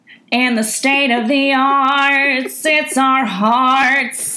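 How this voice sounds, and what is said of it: Sung country twang, lounge-singer style. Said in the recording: “my twang is like turning into like a lounge singer from like the 50s”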